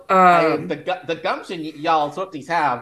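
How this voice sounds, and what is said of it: Put-on Southern American accent. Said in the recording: “talking Southern? Why am I? I'm not from the South.”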